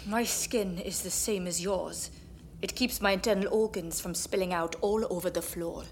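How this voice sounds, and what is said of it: English accent. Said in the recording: “Your accent is English”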